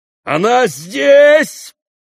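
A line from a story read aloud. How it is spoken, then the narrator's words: Shouting. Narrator (Russian): кричал Дмитрий Федорович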